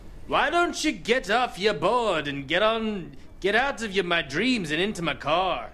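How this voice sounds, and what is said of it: Attempted Bond voice sounding like leprechaun. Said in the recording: “give me your best Bond impression ... Why does everything I do sound like a leprechaun?”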